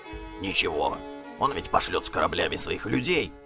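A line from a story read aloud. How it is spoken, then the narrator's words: Whispered reply. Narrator (Russian): отозвался Гримкель шепотом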